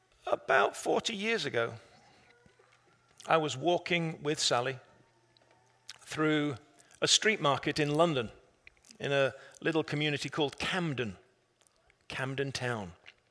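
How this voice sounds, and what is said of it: English accent. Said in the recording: “The English accent's only my preaching voice.”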